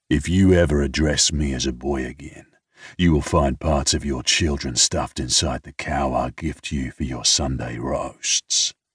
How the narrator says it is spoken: I smoothly say

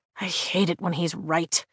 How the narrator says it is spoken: I mutter

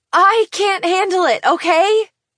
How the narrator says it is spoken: I yell, tears streaming down my face

